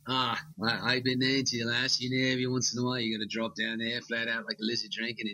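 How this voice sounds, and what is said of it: Put-on Australian accent. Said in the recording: “I heard you do a pretty mean Australian accent anyway.”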